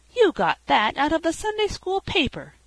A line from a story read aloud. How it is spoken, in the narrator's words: cried Felicity